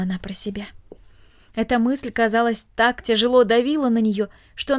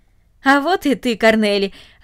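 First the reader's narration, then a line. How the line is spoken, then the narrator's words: Joyful. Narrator (Russian): радостно сказал он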